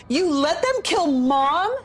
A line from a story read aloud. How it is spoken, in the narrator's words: She screamed